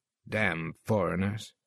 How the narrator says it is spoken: muttered

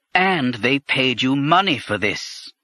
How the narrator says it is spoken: Kuri said bitterly

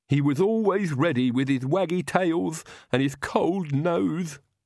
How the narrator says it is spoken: Igor sobbed

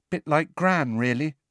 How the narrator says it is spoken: said Neville in a subdued voice

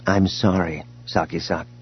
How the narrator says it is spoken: Leia said gently

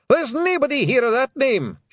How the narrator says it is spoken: shouted Rob Anybody

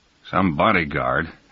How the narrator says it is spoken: Adams said bitterly

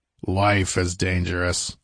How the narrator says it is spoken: rumbled the king

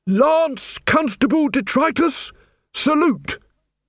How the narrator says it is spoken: He bellowed

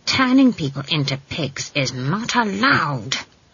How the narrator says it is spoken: hissed

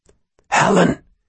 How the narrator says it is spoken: she whispered

